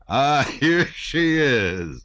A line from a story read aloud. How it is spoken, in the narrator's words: he exclaimed, laughing